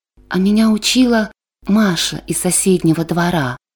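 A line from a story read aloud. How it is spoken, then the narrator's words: Quiet. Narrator (Russian): Петр тихонько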